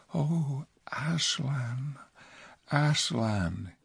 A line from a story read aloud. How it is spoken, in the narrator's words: he whispered